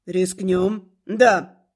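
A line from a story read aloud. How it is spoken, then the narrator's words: Barked. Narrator (Russian): рявкнул Милос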